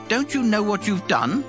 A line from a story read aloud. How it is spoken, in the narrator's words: Abimelech exclaimed